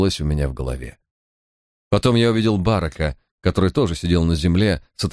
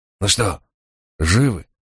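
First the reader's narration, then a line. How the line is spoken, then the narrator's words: Strained breathless exhale. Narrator (Russian): с усилием выдохнул он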